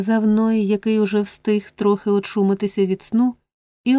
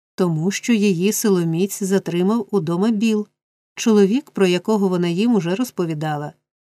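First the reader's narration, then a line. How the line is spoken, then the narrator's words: Plain. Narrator (Ukrainian): відповів Ной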